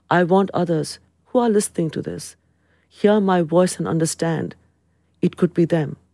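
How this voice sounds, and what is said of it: Speaks with a foreign accent. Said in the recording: “in my accented voice, as an immigrant”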